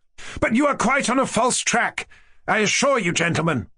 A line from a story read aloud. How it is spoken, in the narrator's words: cried Mushkin